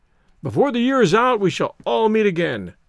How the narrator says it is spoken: cried Stoddard, hopefully

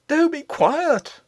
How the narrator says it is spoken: cried the nurse in a whispered shriek

